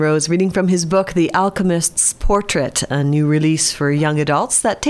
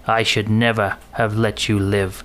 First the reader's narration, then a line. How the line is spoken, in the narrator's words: growled